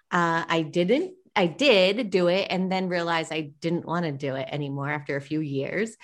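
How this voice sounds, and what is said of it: Boston-area accent. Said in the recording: “I'm originally from the East Coast in Rhode Island, so I kind of have that Boston accent.”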